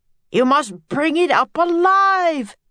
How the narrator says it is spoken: begged the professor

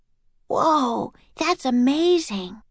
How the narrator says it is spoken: breathed

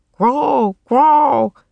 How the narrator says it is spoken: Rock croaked

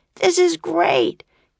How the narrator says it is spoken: cried Jack

